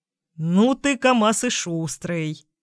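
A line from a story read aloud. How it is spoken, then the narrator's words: Short laugh. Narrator (Russian): хохотнул Сергеевич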